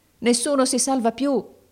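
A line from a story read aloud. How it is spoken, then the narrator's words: Shouting. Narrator (Italian): gridavano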